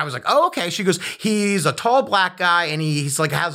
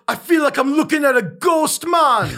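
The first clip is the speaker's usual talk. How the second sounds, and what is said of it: Put-on Jamaican island accent. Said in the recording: “has an island accent, like Jamaican or something... I'm going to do the accent”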